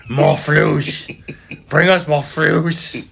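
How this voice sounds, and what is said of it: Gollum-like creature voice. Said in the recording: “my Ryan Poles impression. He's Gollum in this one.”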